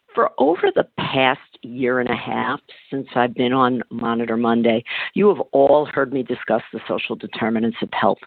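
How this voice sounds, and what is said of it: Lower, slightly raspy voice. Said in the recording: “my voice is a few octaves lower this morning and sounding maybe a little raspy.”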